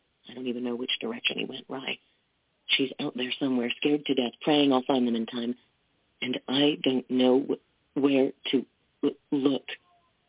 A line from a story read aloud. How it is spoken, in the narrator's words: he whispered